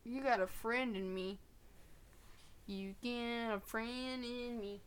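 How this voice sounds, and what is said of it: Bad put-on country accent. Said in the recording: “That was the worst country impression I've ever done.”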